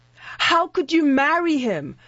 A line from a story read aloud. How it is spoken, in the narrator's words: I said to her, my voice thick with tears